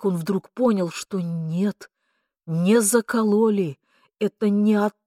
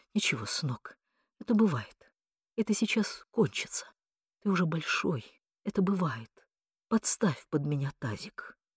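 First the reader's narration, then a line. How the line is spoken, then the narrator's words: Trembling mutter. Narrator (Russian): она, трясясь крупной дрожью, бормотала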